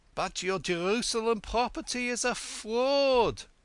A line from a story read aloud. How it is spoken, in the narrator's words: gasped Yankele